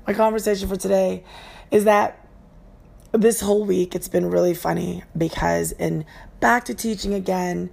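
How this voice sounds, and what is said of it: Hoarse voice. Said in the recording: “my voice is going to be a little bit um, hoarse. Uh, that's just because I had a bad asthma attack when I was going up a mountain with an elevation I could not handle... there's allergies issues”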